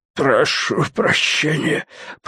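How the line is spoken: Creaky voice. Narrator (Russian): проскрипел он

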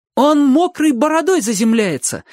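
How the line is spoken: Exclaiming. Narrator (Russian): воскликнул Чик

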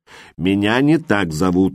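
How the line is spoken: Snorting. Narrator (Russian): фыркнул Джим

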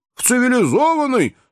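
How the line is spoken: Exclaimed. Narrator (Russian): воскликнул Джо

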